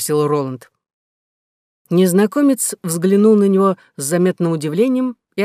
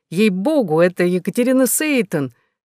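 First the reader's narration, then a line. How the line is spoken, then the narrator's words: Near exclamation, amazed. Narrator (Russian): юноша чуть было не воскликнул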